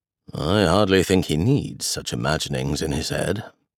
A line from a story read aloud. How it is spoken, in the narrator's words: Darcy grumbled, though good-humouredly